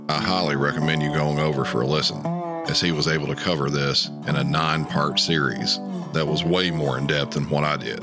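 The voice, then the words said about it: Deep Southern accent. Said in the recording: “read very slowly in my usual deep Southern accent”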